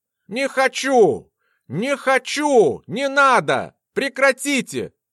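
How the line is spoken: Screaming. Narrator (Russian): кричал Алекс Кей

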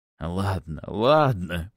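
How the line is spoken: Moaning. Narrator (Russian): простонал он

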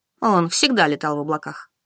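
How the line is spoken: Wistful sigh. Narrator (Russian): вздохнула Анжелика, невольно вспоминая прошлое

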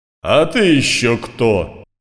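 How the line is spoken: Roaring. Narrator (Russian): проревел Эрмит

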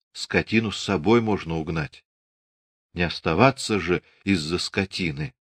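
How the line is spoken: Whispered. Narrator (Russian): шёпотом сказала

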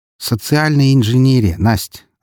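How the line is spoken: Plain. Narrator (Russian): ответил я ей

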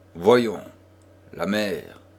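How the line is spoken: Imperious. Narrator (French): dit-il d'un ton impérieux

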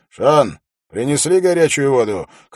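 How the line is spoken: Shout through curtain. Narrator (Russian): крикнул Холт через занавеску

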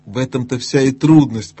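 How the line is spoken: Groaning. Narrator (Russian): простонал Бри

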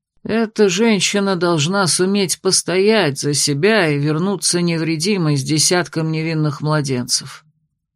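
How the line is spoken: Quiet. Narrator (Russian): тихо проговорил Феодорис

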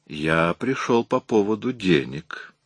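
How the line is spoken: Soft. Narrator (Russian): мягко произнес Мейски

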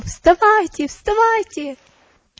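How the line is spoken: Terrified shout. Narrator (Russian): он в ужасе закричал

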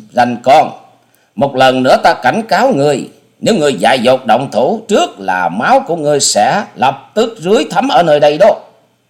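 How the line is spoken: Thunderous shout. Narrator (Vietnamese): Nàng dục quát lên như sấm

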